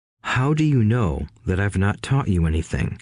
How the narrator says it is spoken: asked Rich Dad calmly

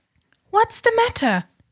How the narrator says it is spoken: cried, in confusion

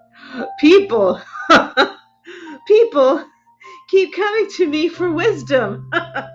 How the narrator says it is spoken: he chuckled

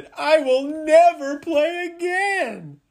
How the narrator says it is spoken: hollered and he moaned

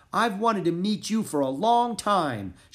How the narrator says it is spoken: she shouted

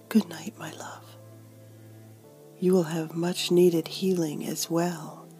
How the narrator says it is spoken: EJ whispered

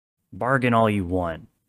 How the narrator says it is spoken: the man said roughly

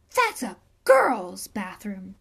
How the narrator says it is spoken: gasped

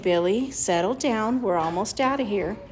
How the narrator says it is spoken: In a very low voice, he was saying

